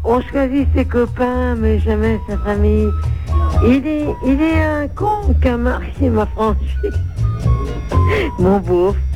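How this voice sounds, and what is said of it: Sung imitation of a singer, sung badly. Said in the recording (French): “faire une petite imitation de Renault ... je chante mal”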